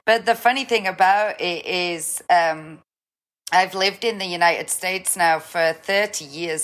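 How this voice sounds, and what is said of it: Slight Northern English accent. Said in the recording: “just the slightest accent ... I'm from the UK originally Newcastle ... most people, if they take a stabbing guess at my accent, will ask me if I'm Scottish ... there must be just enough of that influence that that's what people hear”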